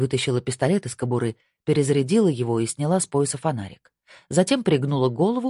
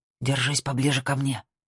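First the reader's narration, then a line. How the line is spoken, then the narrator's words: Whispered. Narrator (Russian): прошептала она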